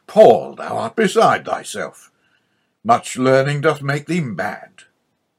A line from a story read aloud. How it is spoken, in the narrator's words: He loudly interrupted